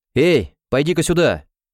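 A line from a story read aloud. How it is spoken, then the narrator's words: Loud shout. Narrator (Russian): громко крикнул Льюис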